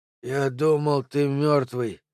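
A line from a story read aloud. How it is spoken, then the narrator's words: Strained, forced out. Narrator (Russian): выдавил Пол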